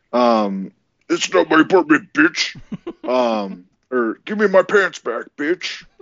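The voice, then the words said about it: Good Macho Man impression. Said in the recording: “It's kind of got some Scary Terry to it. ... a very good impression of the Macho Man himself”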